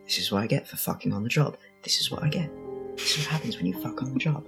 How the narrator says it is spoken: He's, like, muttering under his breath

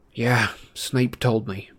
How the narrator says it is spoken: Harry muttered

